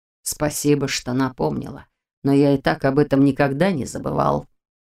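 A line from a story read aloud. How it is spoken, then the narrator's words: Cold reply. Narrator (Russian): холодно отозвался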